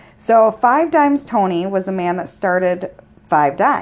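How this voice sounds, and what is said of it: Usual voice. Nothing is said of it.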